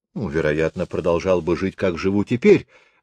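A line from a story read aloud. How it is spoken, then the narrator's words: Plain. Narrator (Russian): говорит Георг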